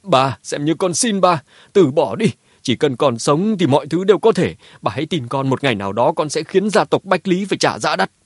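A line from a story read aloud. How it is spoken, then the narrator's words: Tearful loud shout. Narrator (Vietnamese): Đôi mắt Mã Tuân đỏ hoe, hét lớn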